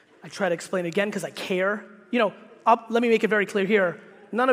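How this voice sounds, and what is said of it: Usual voice. Nothing is said of it.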